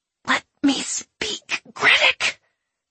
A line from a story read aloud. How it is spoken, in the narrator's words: she wheezed